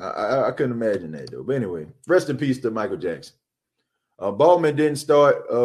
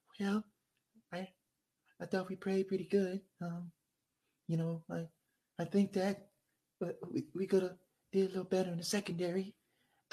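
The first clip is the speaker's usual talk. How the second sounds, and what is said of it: Imitates another person's voice. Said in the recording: “my best Michael Jackson impression”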